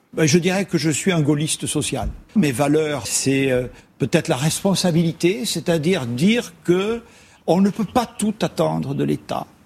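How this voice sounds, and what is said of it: Light southern French accent. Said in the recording (French): “léger accent du Sud, du Gers”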